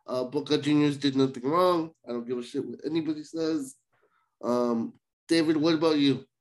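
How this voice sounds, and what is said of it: Voice sounding sick. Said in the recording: “Excuse my voice. I'm a little sick.”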